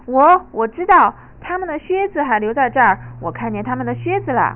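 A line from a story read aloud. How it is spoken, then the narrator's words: Loud shout. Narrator (Chinese): 野猪贝贝尔特立马大声叫道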